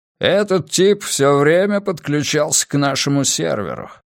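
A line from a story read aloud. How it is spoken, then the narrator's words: Grumbling. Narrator (Russian): проворчал он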